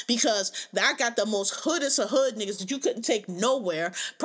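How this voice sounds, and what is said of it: Philadelphia accent. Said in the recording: “I'm from Philadelphia. Philadelphia is a city very well known for our Philly accents ... It's a very distinct accent”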